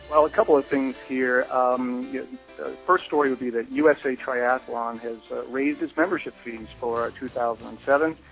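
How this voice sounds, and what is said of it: Noticeable regional accent. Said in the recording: “we even got a guy that has an accent.”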